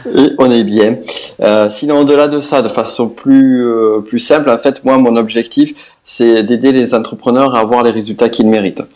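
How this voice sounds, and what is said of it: Southwestern French accent. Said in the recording (French): “comme vous l'entendrez, mon accent, je viens du sud-ouest”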